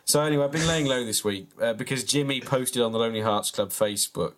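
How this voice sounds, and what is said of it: Sick-sounding voice. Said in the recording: “I don't know if you can tell from my voice, but I've been quite ill this last week”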